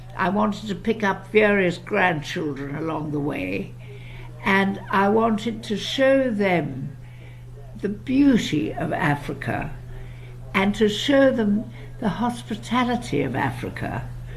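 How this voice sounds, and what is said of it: British-sounding English accent. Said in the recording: “you have such a beautiful English accent ... You just sound so British.”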